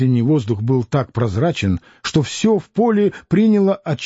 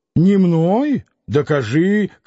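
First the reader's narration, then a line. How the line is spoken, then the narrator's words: Shouting. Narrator (Russian): кричал Дронов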